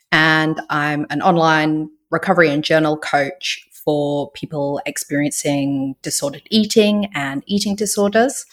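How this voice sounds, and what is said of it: Unusual British-Australian accent. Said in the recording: “I'm originally from the UK. I lived in Australia for about 17 years, hence my unusual accent.”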